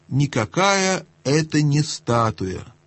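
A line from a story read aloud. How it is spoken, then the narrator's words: Said softly. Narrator (Russian): тихонько сказала Люси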